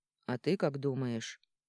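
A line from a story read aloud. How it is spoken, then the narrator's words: Tired question. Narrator (Russian): устало спросил Арман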